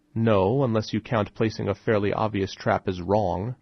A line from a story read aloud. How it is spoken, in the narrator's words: I said with a slight chuckle